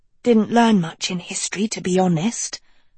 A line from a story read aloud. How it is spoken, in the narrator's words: Dot whispered back